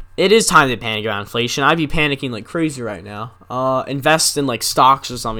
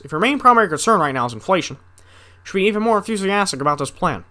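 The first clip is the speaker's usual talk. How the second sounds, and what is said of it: Barack Obama impression. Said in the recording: “I can do an Obama voice. ... It used to be a lot better. I just can't really do it anymore.”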